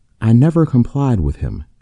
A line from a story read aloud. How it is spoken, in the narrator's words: asserted calmly